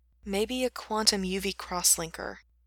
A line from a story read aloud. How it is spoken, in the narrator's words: Gerard sighed dreamily